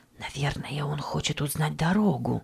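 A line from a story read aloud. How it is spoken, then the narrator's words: Whispering. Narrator (Russian): прошептала миссис Ричардсон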